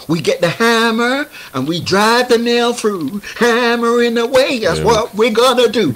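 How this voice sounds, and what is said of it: Put-on American accent. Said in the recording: “Do I need to actually carry on being like an American? ... Why are you speaking American”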